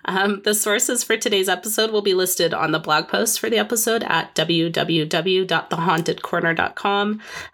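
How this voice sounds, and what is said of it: Sick-sounding voice. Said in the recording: “sorry for my voice. ... I'm still sick”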